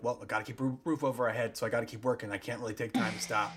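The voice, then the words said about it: Impression of speaker's dad. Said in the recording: “do that impression of you”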